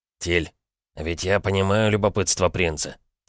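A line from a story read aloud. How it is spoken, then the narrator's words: Quiet question. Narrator (Russian): тихо спрашивал Борзый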